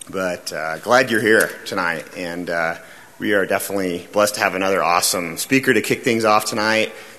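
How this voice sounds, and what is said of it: Raspy voice. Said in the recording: “My voice is really raspy for some reason... just got done smoking about six cigars. And uh, this is what it sounds like after you do that.”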